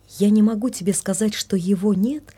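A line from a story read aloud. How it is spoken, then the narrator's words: Plain. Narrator (Russian): ответила она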